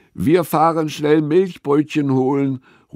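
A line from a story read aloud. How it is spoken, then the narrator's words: Calling across. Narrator (German): ruft Frida zu Gustavs Hütte rüber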